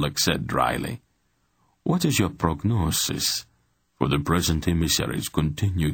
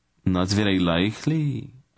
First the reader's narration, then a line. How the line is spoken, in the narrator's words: Isis said with an ugly laugh